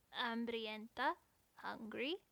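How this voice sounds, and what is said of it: Heavy accent, clicking consonants. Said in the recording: “Her accent was heavier than Lita Gloria's. It clicked oddly after each consonant.”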